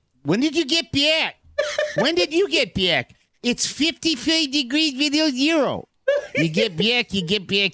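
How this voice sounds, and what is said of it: Attempted Midwestern accent. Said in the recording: “the subtle Midwestern accent ... flat Midwestern A ... isn't that like more Baltimore? ... It's definitely not a Midwestern accent.”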